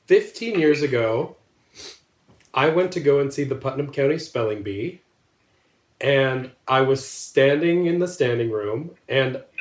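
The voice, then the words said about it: Emotional, choked-up voice. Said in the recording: “I'm going to get a little emotional.”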